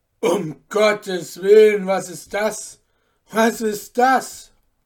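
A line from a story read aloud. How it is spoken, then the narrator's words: Horrified cry. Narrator (German): rief mit Entsetzen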